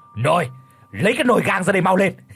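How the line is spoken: Old man barking order. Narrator (Vietnamese): Lão Hành quát

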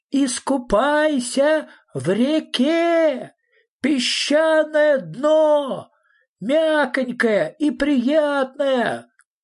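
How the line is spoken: Shouting at full voice. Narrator (Russian): крикнул во все горло Фредриксон

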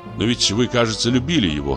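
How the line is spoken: Plain. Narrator (Russian): сказал

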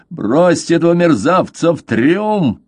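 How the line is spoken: Roaring. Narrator (Russian): проревел он

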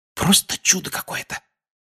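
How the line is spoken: Whispered. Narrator (Russian): прошептал он

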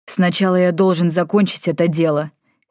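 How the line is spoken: Angry. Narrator (Russian): сердито сказал Йен

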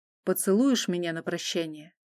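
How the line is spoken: Quiet question. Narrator (Russian): Тихо спросил Мадис

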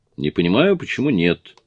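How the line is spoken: Cheerful. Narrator (Russian): бодро сказала Кэрри

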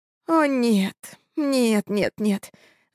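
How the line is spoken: Moaning. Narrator (Russian): застонала она

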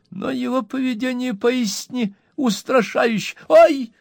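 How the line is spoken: Startled squeal. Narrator (Russian): взвизгнул мистер Пиквик, подпрыгнув на стуле

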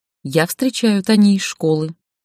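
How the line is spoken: Calm. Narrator (Russian): сказала спокойно

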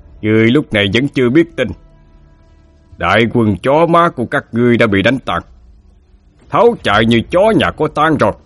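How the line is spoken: Loud laughing. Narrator (Vietnamese): Ngô Quyền cười lớn mà nói

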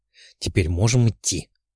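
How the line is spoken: Displeased mutter. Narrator (Russian): недовольно буркнул гипербореец

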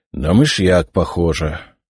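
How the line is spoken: Sighing, doctor. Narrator (Russian): вздохнул лекарь

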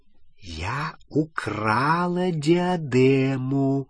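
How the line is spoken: Whispered repetition. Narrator (Russian): шепотом повторила Елена Когтевран

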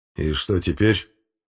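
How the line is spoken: Grim question after pause. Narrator (Russian): спустя пару секунд спросил генерал, мрачно глядя на тело безопасника

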